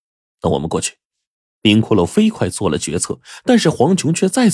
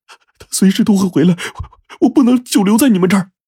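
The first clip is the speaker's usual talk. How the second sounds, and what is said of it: Panicked, flustered voice. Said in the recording (Chinese): “慌张的声音说”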